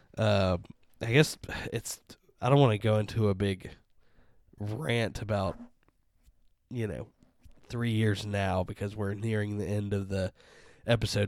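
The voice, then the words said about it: Worn-out, hoarse voice. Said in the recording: “my voice is gone too”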